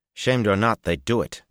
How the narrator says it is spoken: he snapped

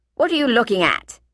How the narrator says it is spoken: he demanded in a harsh voice

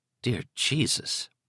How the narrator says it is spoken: Liz muttered

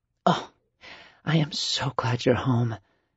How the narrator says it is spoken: Carmen whispered into his neck

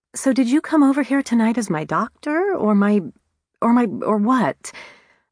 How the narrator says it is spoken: I sputtered

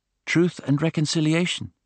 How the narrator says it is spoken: said Clara

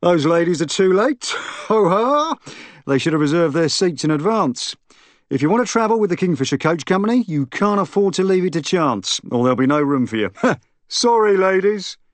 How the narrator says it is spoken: he bellowed suddenly

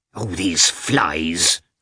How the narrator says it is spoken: cried Agafya Mikhailovna crossly

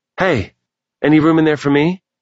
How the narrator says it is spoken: Mason called out

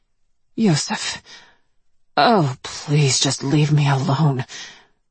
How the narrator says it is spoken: I murmured, suddenly aware of the sweltering temperature of the little glass booth

